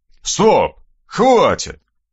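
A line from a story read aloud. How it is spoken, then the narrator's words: Bark suppressing laughter. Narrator (Russian): рявкнул Аристарх Макарович, еле сдерживая смех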